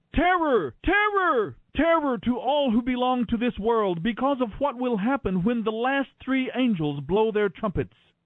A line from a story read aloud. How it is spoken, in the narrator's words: a single eagle crying loudly as it flew through the air